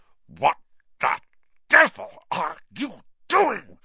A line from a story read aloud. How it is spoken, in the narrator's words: said Uncle Vernon through gritted teeth